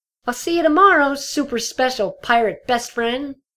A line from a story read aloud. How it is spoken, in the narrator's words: Dinky shouted